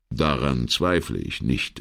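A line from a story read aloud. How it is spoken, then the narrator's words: Replied calmly. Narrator (German): entgegnete Brunetti ruhig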